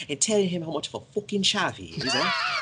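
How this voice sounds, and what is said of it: Mocking put-on British accent. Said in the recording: “You could just do a British accent, mocking him all the time.”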